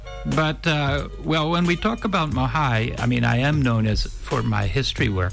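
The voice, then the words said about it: American accent. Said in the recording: “I was born in the United States, thus my accent.”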